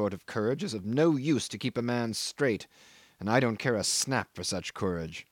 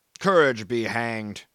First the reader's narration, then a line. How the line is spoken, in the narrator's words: growled Brierly